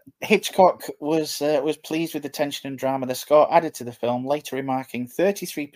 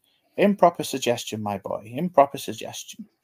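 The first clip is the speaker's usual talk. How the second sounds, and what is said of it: Alfred Hitchcock impression. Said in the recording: “Great impression”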